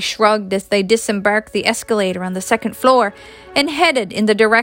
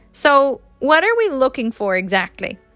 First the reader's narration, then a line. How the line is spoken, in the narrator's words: Joey laughed before asking